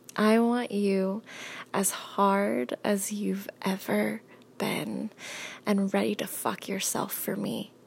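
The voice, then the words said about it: Sultry, seductive voice. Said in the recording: “my delicious, sexy voice”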